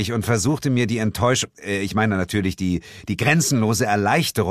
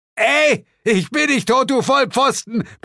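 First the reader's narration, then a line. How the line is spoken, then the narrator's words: Shouted upward. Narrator (German): brüllte Zuko zu uns herauf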